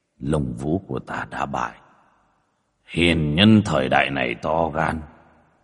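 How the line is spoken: Muttering. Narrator (Vietnamese): Một cái đầu ngóc lên, lẩm bẩm

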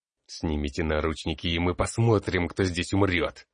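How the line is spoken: Hissed. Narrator (Russian): прошипел магистр

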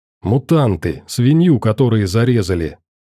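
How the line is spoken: Hissing. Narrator (Russian): зашипел Юрка

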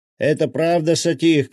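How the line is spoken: Shout. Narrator (Russian): крикнул он

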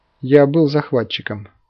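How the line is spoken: Calm. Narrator (Russian): спокойно произнес он

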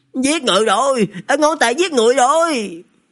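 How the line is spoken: Shouting. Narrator (Vietnamese): hét

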